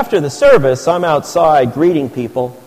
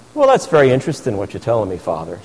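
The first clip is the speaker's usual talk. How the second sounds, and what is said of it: Imitated Irish accent, elderly woman. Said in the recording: “with this wonderful Irish accent”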